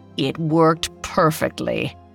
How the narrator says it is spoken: she said

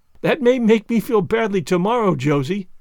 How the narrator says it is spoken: laughed Anne

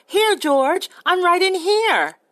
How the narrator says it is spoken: Lenny cried

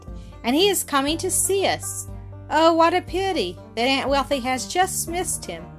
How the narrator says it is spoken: she exclaimed

